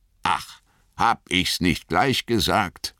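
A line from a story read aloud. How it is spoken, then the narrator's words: Growled. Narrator (German): knurrte Gimli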